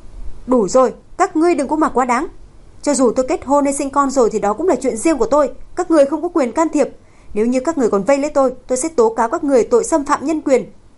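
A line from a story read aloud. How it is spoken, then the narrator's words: Angry shout. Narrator (Vietnamese): Cô tức giận quát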